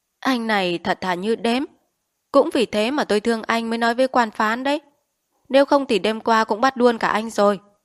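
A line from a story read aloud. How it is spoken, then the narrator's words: Old man's mocking laugh. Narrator (Vietnamese): Tiếng lão thủ quỹ cười như chế nhạo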